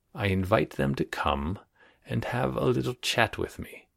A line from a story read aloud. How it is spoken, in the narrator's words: he said in a soft voice